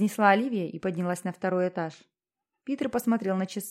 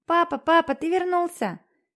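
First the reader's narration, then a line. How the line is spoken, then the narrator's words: Joyful child's shout. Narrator (Russian): радостно прокричал мальчик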